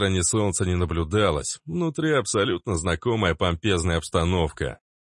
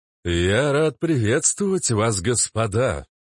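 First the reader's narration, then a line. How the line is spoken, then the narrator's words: Smooth, enveloping, trained voice. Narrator (Russian): Хорошо поставленным обволакивающим голосом заговорил тот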